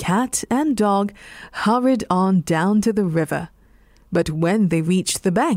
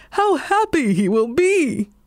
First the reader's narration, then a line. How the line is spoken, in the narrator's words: cried the dog